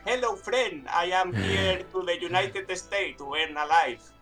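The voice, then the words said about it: Mock foreign accent speaking English. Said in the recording (Spanish): “tenía un poco el acento de ... Ahí, un poco como el de GTA 4”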